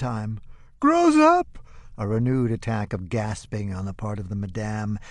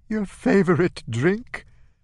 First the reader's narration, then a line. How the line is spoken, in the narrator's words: coughing, gasping